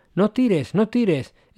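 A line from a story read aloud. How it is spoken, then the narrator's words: Exclamation. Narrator (Spanish): exclamó Brian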